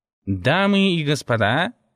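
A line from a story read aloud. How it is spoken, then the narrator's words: Nasal drone. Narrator (Russian): загнусавил он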